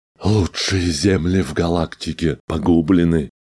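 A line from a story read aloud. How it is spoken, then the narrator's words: Grieving moan. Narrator (Russian): горестно простонал клиент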